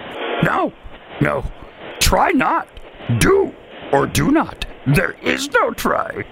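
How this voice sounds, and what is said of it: Yoda impression. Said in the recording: “Name this Star Wars character impersonation. ... Yoda.”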